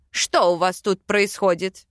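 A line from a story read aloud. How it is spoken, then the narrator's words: Barking. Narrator (Russian): Рявкнул король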